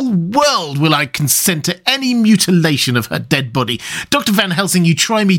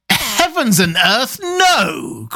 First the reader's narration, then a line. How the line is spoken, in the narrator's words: cried Arthur in a storm of passion